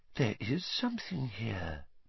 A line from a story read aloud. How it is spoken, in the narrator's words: Professor Trelawney whispered